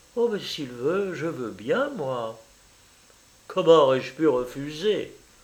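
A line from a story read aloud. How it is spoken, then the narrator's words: Smiling murmur. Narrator (French): elle murmura en se mettant à sourire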